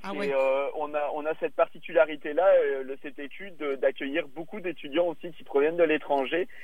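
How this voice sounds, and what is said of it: European French accent, not Québécois. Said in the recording (French): “on l'entend à mon accent, mais moi, je viens, évidemment pas de, de Québec. Euh, moi, je suis un Européen”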